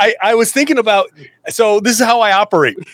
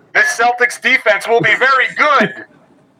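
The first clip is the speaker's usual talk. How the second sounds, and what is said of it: Screaming through a megaphone. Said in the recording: “I'm screaming it from the rooftops... megaphone”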